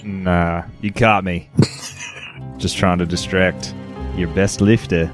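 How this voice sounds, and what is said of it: Speaks in a put-on accent. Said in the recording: “that's a tongue twister in that accent.”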